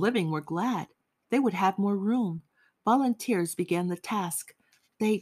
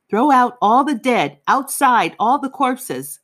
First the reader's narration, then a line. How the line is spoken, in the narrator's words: the SS walked by, shouting